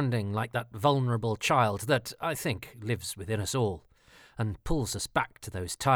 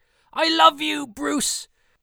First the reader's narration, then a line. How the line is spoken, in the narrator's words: genuine emotion in this young man's voice as he called out